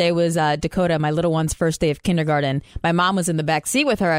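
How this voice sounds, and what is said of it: Usual voice. Nothing is said of it.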